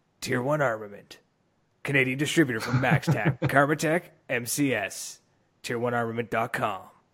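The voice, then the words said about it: Announcer voice. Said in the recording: “use your announcer voice.”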